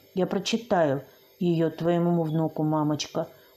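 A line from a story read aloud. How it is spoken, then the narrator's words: Whisper. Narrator (Russian): прошептала я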